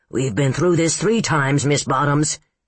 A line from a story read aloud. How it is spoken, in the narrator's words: he croaked, trembling with frustration